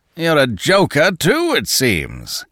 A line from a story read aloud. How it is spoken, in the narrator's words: roared the other